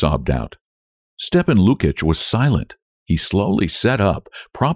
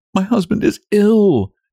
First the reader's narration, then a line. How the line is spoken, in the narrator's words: Nellie continued, restraining her sobs